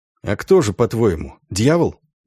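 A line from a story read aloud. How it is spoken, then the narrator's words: Quiet question. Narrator (Russian): тихо спросил Дан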